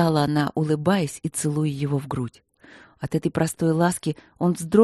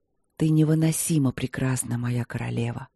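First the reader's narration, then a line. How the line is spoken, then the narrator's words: Hoarse whisper. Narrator (Russian): хрипло прошептал в ответ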